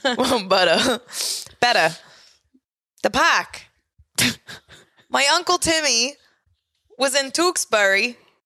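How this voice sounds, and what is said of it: Attempted Boston accent. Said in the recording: “I'm trying to practice my Boston accent ... You sound like you're from Staten Island.”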